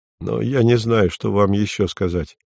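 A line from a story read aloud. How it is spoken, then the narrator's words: Said wearily. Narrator (Russian): проговорил Вадим, устало прикрывая глаза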